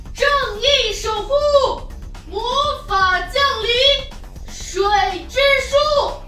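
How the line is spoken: Loud shout. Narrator (Chinese): 凯德大喊一声

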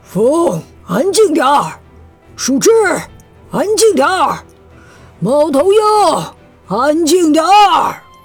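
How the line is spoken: Loud command, big rat. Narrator (Chinese): 大老鼠大声命令

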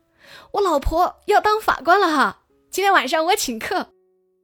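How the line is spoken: Loud shout. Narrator (Chinese): 冲同事大喊

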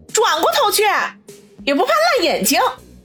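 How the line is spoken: Angry. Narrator (Chinese): 苏辛迪怒声说道

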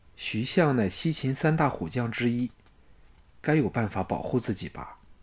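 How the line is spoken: Plain. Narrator (Chinese): 季嫣然说

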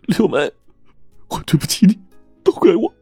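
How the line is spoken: Crying. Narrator (Chinese): 张海哭了起来

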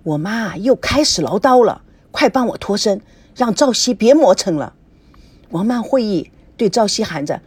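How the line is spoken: Low voice. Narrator (Chinese): 低声地说

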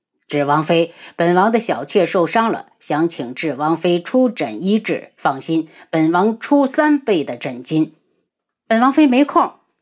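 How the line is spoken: Light laugh. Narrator (Chinese): 那人轻笑一声

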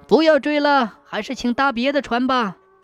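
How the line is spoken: Loud shout. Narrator (Chinese): 船夫大声喊道

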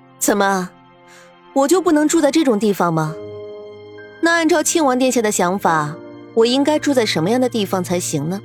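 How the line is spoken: Laughing question. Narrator (Chinese): 白依依笑着问道

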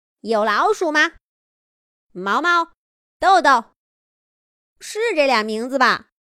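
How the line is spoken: Calling out. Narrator (Chinese): 三花喊了两遍

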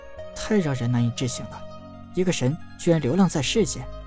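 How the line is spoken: Dazed murmur. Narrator (Chinese): 陈南好半天才回过神来，喃喃道

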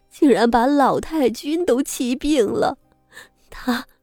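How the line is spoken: Loud wailing. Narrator (Chinese): 三少奶奶扯着嗓门嚎哭着，朝李氏磕头道

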